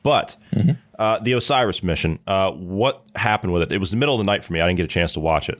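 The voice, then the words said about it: Sick, strained voice from a cold. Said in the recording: “I'm still suffering from the man flu, as you can probably hear... I don't know how long my voice is going to hold up”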